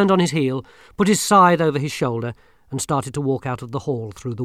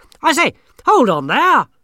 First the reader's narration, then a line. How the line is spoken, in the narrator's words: shouted Verence